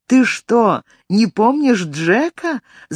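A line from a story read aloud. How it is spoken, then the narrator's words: Laughing. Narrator (Russian): засмеялась Эллен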